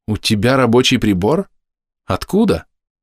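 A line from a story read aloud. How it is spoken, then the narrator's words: Plain question. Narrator (Russian): спросила Айес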